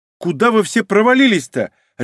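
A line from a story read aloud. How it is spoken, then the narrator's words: Barked, then flustered. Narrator (Russian): рявкнула девушка, но сразу же смешалась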